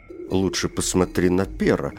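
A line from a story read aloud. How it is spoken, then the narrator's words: Plain. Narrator (Russian): ответил другой голос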